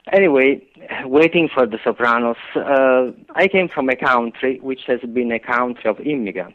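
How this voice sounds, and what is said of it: Italian accent. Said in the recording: “I am from Italy. I believe that my accent will be with me forever.”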